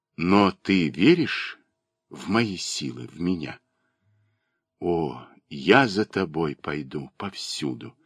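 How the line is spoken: Passionate reply. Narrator (Russian): страстно ответила

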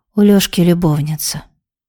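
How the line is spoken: Flat matter-of-fact tone. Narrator (Russian): ровным голосом, как если бы говорили они о погоде, выдала Галя

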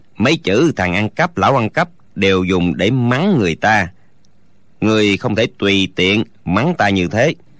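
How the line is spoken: Calm, smiling. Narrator (Vietnamese): Tạ Yên Khách không nổi giận lại mỉm cười

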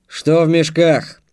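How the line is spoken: Warrior barking. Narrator (Russian): рявкнул воин

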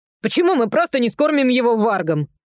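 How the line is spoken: Snorted. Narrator (Russian): фыркнула Зора

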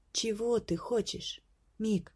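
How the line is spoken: Gentle question. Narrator (Russian): ласково спросила принцесса

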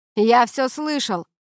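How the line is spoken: Distant shout from corridor. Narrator (Russian): крикнул из коридора Келвин

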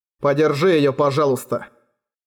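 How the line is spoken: Icy request. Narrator (Russian): Ледяным тоном попросил он Эрагона

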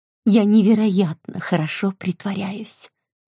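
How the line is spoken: Whisper. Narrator (Russian): прошептала она

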